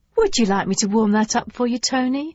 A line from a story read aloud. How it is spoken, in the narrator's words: She asked sweetly